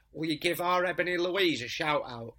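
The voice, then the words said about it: Strong Manchester accent. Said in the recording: “She had a really strong Manchester accent. She was smoking a fag”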